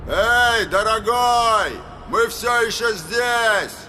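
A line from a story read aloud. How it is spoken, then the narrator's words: Shout, attempted mockery. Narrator (Russian): крикнул Роланд, пытаясь придать голосу насмешливой интонации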